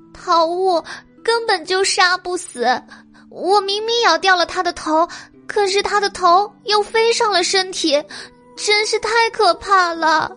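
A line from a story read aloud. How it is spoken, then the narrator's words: Trembling frightened voice. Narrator (Chinese): 舍利因为恐惧而浑身发抖，他颤声道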